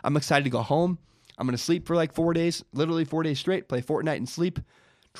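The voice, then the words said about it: Sick, strained voice. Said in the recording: “I'm still sick. I don't know if you can hear it in my voice. I've had to stop multiple times and cough ... this thing in my throat, fix my throat”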